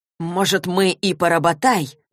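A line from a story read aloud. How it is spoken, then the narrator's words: Said through clenched teeth. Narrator (Russian): процедил Алик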